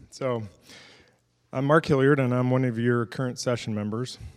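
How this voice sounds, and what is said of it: Sick, rough-sounding voice. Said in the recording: “I apologize for my voice. ... I'm trying to find the sweet spot between NyQuil and DayQuil.”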